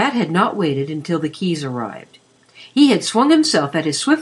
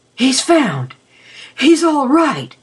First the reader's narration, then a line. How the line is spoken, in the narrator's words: panted